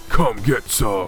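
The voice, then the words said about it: Imitates a video game hero's voice. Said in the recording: “in my best Duke Nukem voice.”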